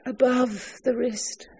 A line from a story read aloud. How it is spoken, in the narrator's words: said the lady, mournfully raising her voice